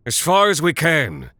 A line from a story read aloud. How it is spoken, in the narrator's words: Mugmedius, oldest of the four, his voice straining against the wind